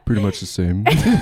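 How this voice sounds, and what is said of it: Imitates another person's voice. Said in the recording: “that was a really good impression of me”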